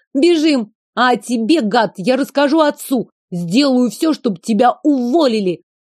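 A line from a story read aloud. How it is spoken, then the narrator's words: Yapping parting bark. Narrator (Russian): Рявкнула, как моська, напоследок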